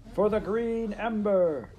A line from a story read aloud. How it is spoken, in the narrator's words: Lord Blackstar shouted